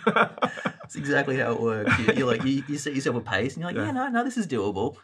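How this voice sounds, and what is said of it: Australian accent. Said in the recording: “from your accent, you could probably tell that ... is not native here to the United States ... My accent is Australian”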